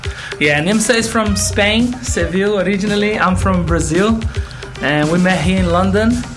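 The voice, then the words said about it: Foreign, non-local accent. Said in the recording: “obviously there's an accent there, so you're not local.”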